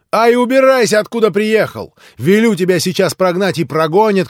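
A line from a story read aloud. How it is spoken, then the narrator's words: Frenzied shout. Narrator (Russian): крикнула в выступлении Грушенька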